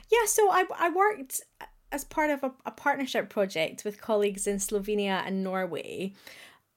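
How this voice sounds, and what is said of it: Scottish accent. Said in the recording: “listeners will hear from my accent I am Scottish”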